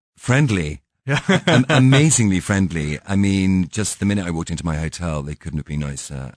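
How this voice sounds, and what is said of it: Non-local foreign accent. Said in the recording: “Maybe it's the accent ... you have a great accent ... I probably wasn't a local”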